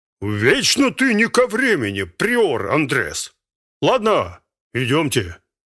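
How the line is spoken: Deep bass, fat man. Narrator (Russian): Толстяк пробасил

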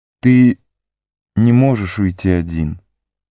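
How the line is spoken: Soft, gentle. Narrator (Russian): мягко произнесла владычица

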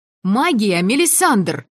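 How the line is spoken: Yelling over loud saxophones. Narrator (Russian): орала я, перекрикивая очередной троллей коллектив с саксофонами

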